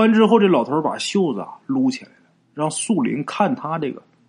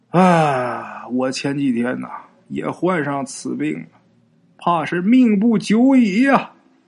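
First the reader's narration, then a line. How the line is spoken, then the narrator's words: Old man, long sigh. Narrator (Chinese): 老头是长叹一口气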